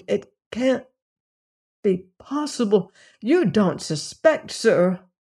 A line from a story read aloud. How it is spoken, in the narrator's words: muttered